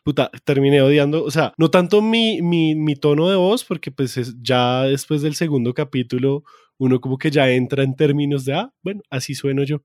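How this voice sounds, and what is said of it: Bogotá (rolo) Colombian Spanish accent. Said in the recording (Spanish): “mi maldito acento rolo ... odio mi acento rolo”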